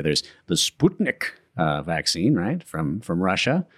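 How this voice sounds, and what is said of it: Poor put-on Russian accent. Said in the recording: “I like the accent. ... it was a terrible Russian accent, but it was an accent.”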